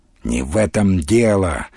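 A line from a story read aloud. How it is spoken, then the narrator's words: Irritated. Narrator (Russian): раздраженно ответил Тимофей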